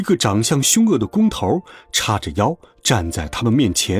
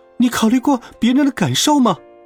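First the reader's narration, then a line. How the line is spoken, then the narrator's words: Exasperated shout. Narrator (Chinese): 卡门忍无可忍，冲着他大喊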